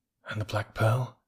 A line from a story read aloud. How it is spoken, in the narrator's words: He murmured